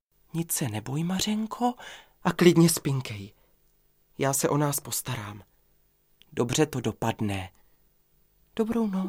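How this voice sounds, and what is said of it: Whispered speech. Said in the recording (Czech): “pošeptal”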